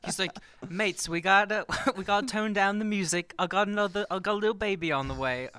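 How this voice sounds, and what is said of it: Put-on British accent. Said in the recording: “that British That accent was was, really terrible. good. Oh, that was really no, it was great.”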